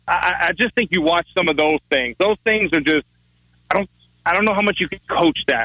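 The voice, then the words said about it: Thick Louisiana accent. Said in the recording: “I'm in Louisiana with a thick accent ... with a very identifiable accent”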